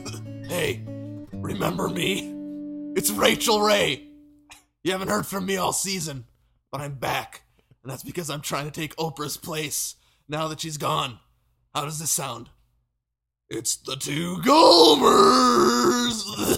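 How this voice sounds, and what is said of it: Rachael Ray impression. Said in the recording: “I need to do an impression”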